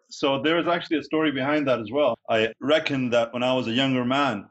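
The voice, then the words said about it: Non-American accent. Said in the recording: “you have a different accent”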